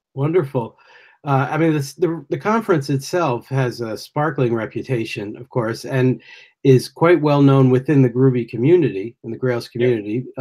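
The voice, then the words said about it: American accent. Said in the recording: “Forgive my accent. ... I'm an American”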